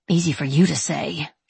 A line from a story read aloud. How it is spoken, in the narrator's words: she mutters, remembering the nausea, the weight, the heartburn, the contractions, the loss